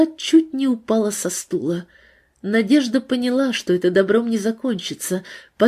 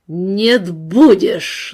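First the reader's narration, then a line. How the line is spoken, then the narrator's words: Angry words through teeth. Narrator (Russian): злобно процедил сквозь зубы Степан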